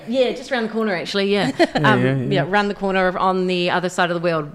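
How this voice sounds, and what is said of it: New Zealand accent. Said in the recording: “That doesn't sound like a local accent... We're both from New Zealand. Wellington, New Zealand”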